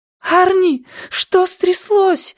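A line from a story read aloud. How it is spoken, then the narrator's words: Shouting. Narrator (Russian): закричала она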